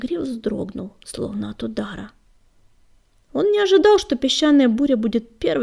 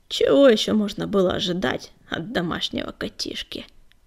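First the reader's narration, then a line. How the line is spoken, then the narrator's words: Scoffing grunt. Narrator (Russian): хмыкнул Частокол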